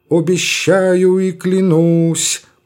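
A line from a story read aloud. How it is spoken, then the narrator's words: Priest's chant. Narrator (Russian): произнес нараспев священник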